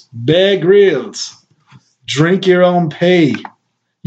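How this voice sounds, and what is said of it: Put-on British accent. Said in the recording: “anything in a British accent.”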